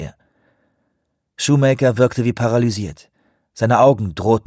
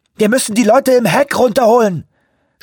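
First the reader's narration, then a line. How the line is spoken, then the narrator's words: Shout. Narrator (German): schrie Anawak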